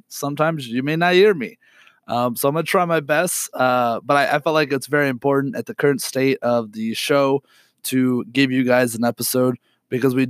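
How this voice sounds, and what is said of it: Raspy, sick-sounding voice. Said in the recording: “I'm sick, so my voice is very raspy.”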